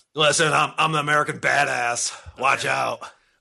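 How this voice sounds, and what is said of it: Deep-voiced morning radio DJ impression. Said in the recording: “Mankow sounds a lot like Bubba the Love Sponge, too. Well, I mean, they all sound the same. ... They all get the really deep voice.”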